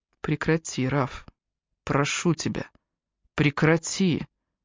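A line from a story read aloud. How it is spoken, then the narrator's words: Barely audible whisper. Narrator (Russian): едва слышно прошептал Джастин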